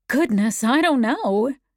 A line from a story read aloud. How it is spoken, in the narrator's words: Anne exclaimed